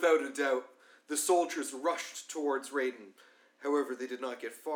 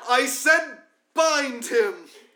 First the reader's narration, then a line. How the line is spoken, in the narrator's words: the captain shouted out of utter fury